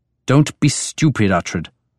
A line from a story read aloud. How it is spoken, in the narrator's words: Beorka said angrily